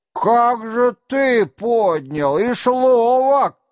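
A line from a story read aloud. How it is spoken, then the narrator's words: Hoarse shouting. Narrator (Russian): кричал хриплым голосом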